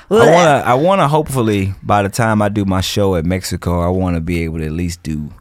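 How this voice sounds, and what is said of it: Southern American accent. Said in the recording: “I still have my Southern accent, so people they be laughing at me”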